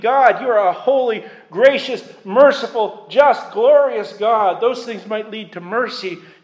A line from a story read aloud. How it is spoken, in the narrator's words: He's not pleading